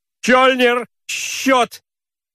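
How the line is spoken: Irritated shout. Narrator (Russian): крикнул он раздраженно

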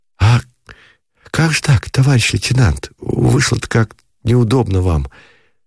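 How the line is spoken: Hurried whisper behind door. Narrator (Russian): заторопился за дверью шепот у Шатикова

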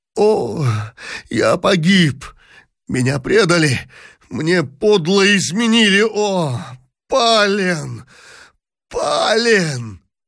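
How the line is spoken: Anguished emperor moaning. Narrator (Russian): простонал в тоске император

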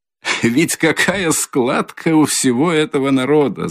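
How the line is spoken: Loud laughter. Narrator (Russian): захохотал Свидригайлов

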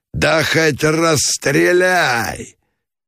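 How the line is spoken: Wild frenzied yell. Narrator (Russian): Заорал дурным голосом Меженин

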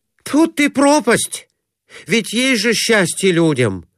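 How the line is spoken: Exclaiming. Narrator (Russian): воскликнул Иван Кондратьевич

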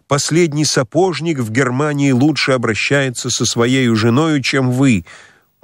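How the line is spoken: Shouted. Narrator (Russian): Она закричала

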